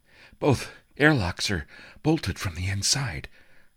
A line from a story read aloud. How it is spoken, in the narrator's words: Toshio panted